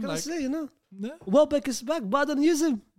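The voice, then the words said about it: Speaking in a different accent. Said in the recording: “you speak with a different accent. What happened? Why has the accent come out now?”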